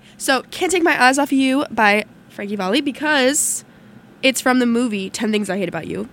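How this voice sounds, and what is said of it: Strained, fading voice. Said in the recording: “I'm also losing my voice”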